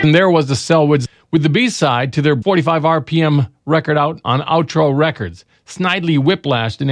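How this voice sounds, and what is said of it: Usual voice. Nothing is said of it.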